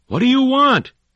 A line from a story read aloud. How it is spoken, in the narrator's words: he yelled